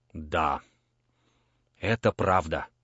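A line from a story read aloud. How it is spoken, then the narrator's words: Sigh. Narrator (Russian): вздохнул он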